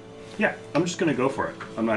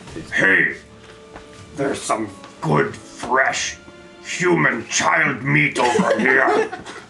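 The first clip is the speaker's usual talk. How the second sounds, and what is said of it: Gruff monster creature voice. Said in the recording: “I'm going to call out to them in gnoll, in my best gnoll voice.”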